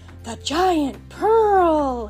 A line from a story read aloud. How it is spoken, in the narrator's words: he gasped